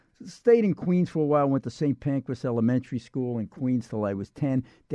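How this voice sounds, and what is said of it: Brooklyn New York accent. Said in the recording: “I was born in Brooklyn, Wyckoff Heights Hospital, as you could tell by this accent.”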